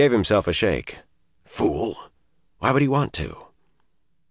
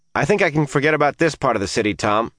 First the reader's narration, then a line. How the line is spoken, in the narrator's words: he shouted